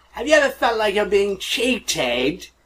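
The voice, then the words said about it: Poor imitation of another person's voice. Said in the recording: “my terrible Johnny Rotten impression... pretty much on par with the terrible Johnny Rotten impression”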